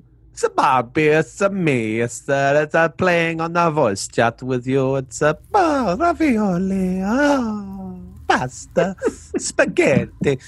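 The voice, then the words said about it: Put-on Italian accent. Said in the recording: “That's just an accent. ... I shouldn't culturally appropriate an Italian man.”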